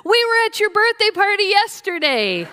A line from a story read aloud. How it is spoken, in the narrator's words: the three ladies happily yelled in unison